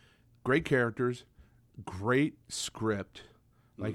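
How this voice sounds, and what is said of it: Usual voice. Nothing is said of it.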